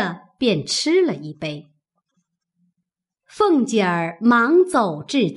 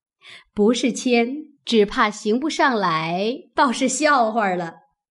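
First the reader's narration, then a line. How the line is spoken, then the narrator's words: Laughing. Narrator (Chinese): 薛姨妈笑道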